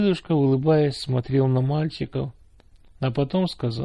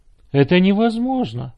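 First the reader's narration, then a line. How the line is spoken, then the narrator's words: Exclaiming. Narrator (Russian): воскликнул Славик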